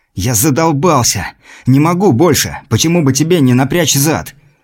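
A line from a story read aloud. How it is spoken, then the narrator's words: Furious hoarse wheeze. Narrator (Russian): Просипел на него разъяренный сталкер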